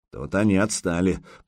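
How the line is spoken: Grumbling. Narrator (Russian): проворчал Возгарь

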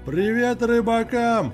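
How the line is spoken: Joyful shout, muffled, middle-aged man. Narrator (Russian): радостно выкрикнул из закрытого окна загорелый мужик лет 45

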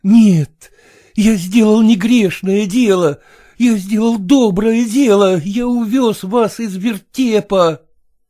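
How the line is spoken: Tender exclamation. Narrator (Russian): Приискивал Селезенкин для нее ласковые слова и воскликнул

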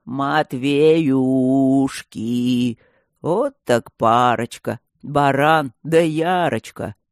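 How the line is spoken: Sudden ugly singing. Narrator (Russian): вдруг запел он дурным голосом

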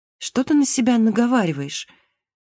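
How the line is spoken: Bewildered. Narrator (Russian): растерянно сказала Марго

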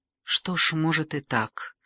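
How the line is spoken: Reluctant mumble. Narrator (Russian): неохотно, пробормотала она

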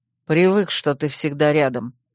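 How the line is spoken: Cold explanation. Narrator (Russian): холодно пояснил Земка

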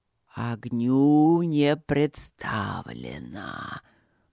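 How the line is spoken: Drawn-out, surprised. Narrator (Russian): протянул он с явным удивлением

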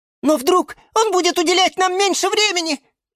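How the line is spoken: Frightened squeak. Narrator (Russian): испуганно пискнула фиалка Наталка

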